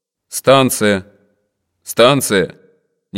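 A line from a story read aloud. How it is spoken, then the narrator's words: Tired dry female contralto. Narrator (Russian): прямо в кожу щеки усталый женский контральто сухо сказал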